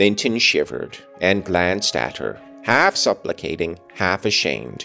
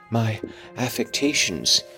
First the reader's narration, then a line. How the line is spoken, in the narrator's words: he murmured